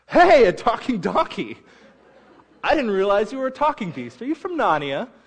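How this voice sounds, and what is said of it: Put-on British accent. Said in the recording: “you have to use a British accent”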